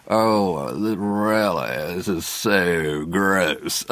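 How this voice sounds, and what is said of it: Creaky vocal fry. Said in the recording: “vocal tick ... your vocal cords are vibrating ... vocal fry”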